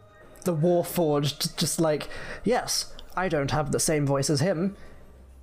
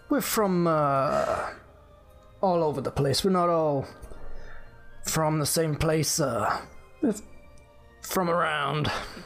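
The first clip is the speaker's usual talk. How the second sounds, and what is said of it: Character voice with a fun accent. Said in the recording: “That's a fun accent you've got there.”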